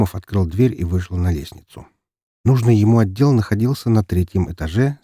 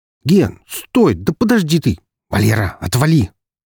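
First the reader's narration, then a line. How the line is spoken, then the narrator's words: Irritated snap. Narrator (Russian): огрызнулся Громов, мысленно проклиная богов за ту кару, что они послали ему в виде словоохотливого коллеги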